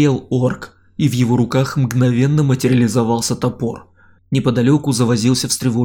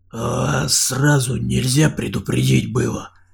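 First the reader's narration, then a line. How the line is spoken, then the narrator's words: Indignant whisper. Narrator (Russian): донесся возмущенный шепот от него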